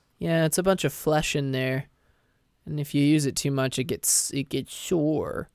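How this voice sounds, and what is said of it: Tired, slightly crackly voice. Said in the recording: “The the the voice is a little tired. ... a little crackly”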